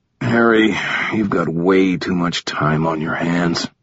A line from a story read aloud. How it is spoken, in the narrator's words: groaned